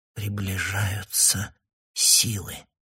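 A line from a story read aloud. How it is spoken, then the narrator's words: Barely audible. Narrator (Russian): молвила она еле слышно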